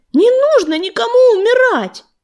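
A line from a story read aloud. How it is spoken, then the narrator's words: Desperate shout. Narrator (Russian): в отчаянии закричал на нее Огнезвезд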